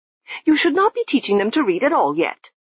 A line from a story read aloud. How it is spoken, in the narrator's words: she snapped